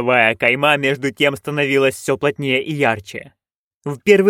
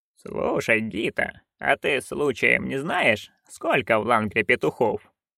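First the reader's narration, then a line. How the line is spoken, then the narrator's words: Quiet question. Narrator (Russian): тихо спросила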